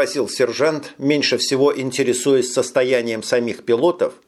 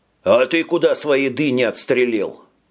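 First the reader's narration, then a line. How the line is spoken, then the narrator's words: Stern question. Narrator (Russian): строго спросил механик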